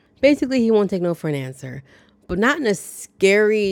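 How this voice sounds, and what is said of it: Usual voice. Nothing is said of it.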